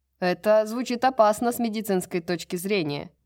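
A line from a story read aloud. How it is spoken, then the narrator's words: Shouted. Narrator (Russian): крикнул Холстром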